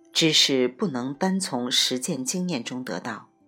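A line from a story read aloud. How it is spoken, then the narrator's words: Sighing exclamation. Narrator (Chinese): 爱因斯坦感叹道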